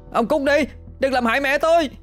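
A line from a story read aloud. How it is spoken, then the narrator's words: Pained scream. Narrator (Vietnamese): Hoàng oằn mình chịu đòn, đau đớn mà hét lên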